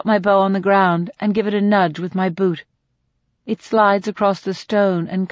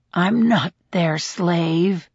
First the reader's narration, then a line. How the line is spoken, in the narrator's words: the man mutters